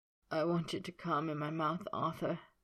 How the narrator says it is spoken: he rasped, swallowing to clear his throat

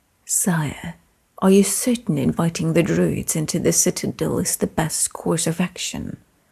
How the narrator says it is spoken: Leon whispered

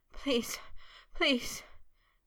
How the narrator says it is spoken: he panted in a chanting plea, shudders still jerking through him

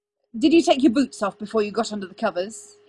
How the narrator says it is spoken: said, squirming hastily

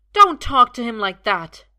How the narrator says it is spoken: Merlin says fiercely

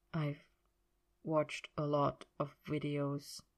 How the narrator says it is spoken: said quietly

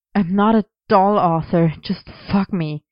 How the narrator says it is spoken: Merlin panted, which melted into a moan

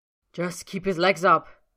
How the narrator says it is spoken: Roy snaps

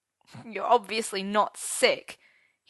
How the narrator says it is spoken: he said bitterly

